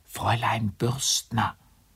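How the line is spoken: Helpless whisper through door. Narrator (German): In seiner Hilflosigkeit und da keine Zeit zu verlieren war, flüsterte er durch den Türspalt

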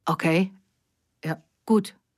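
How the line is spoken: Stammering. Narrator (German): stotterte er schließlich

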